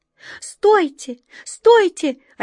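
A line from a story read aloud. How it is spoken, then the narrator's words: Desperate cry. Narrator (Russian): отчаянно закричала белка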